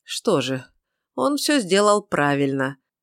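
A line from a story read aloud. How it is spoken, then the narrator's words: Somewhat gloomy remark. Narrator (Russian): Несколько мрачно заметил Дюпре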